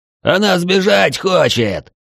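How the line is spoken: Yelling. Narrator (Russian): заорал маг

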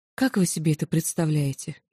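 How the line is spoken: Convulsive sigh. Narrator (Russian): судорожно вздохнула

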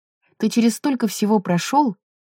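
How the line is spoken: Sighing over phone. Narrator (Russian): вздохнула в трубку Розалин

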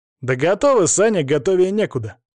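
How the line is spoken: Cheerful ironic shout. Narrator (Russian): бодро, но с иронией крикнул кто-то

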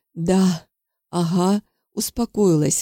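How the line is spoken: Breathy exhale. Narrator (Russian): выдохнула она

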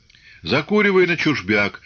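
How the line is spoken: Chuckling. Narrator (Russian): хохотнул Силантьев

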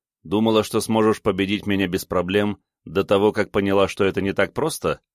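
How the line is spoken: Smirking grunt. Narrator (Russian): хмыкнул я

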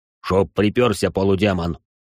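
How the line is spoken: Menacing young man's question. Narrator (Russian): грозно спросил молодец

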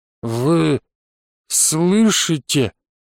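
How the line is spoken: Slurred confused mumble. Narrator (Russian): Непослушным языком промямлил я, ничего не понимая

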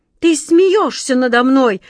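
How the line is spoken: Furious shout, king. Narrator (Russian): в бешенстве закричал король

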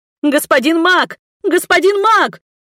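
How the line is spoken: Frantic screaming. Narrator (Russian): истошно заорала я

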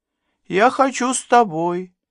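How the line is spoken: Thin high squeak. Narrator (Russian): тонким голоском пропищала она

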